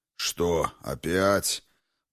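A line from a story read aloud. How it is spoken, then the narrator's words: Grumbling huge man. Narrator (Russian): проворчал второй, видом сущий варвар, высоченный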